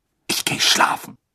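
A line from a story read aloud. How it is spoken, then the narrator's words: Angry hissing. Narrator (German): fauchte Hermine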